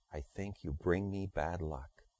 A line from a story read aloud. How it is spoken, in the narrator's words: With a whisper, he said